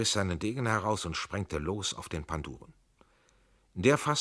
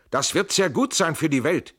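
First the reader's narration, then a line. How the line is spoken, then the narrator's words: Shouting. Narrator (German): schrie Trenk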